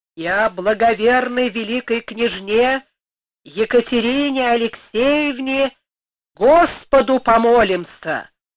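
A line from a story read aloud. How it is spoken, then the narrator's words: Rumbling bass proclamation. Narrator (Russian): Диакон, ракочущим басом возглашал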